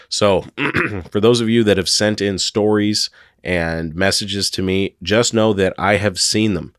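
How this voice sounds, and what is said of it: Hoarse, strained voice, losing voice. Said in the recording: “I'm getting over another cold. I've had the worst sore throat for like 2 weeks straight. And I keep losing my voice when I talk. So I'm starting to lose my voice”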